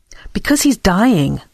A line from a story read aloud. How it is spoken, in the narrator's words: Dora snapped